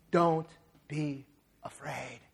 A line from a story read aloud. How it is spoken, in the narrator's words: He whispered into young Bruce Wayne's ear